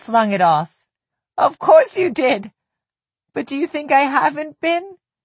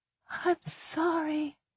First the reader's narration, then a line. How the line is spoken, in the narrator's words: whispered